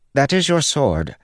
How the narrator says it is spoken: Pattern said in a perky voice

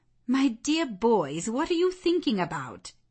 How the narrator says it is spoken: exclaimed Mrs

